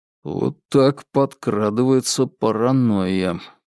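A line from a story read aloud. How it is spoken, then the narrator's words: Mutter. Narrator (Russian): пробормотал он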